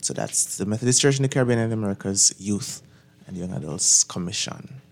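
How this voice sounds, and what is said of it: Jamaican accent. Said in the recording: “I noticed the Jamaican accent”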